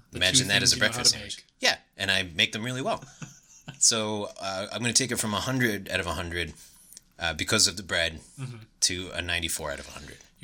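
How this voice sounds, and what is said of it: New York accent. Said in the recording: “I don't think I've ever heard your New York accent come out, but I've heard it the most I've ever heard it my entire life during this conversation”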